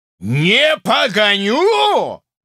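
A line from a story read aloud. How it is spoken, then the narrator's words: Roaring at full voice. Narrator (Russian): взревел Паша изо всей силы своего голоса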